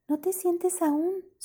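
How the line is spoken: Whisper. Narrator (Spanish): susurró Nora

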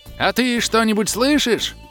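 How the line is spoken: Yelling. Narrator (Russian): Вновь завопил Ул

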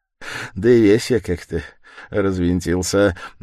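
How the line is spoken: Changed tone, laughing. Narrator (Russian): начал он совсем другим тоном, смеясь

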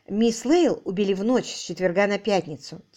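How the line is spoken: Quiet. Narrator (Russian): тихо начала она

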